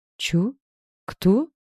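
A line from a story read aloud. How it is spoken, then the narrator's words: Bewildered, forced out. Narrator (Russian): Растерянно выдавила мама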